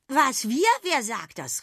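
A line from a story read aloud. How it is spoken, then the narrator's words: Astonished exclamation. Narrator (German): rief Sausi erstaunt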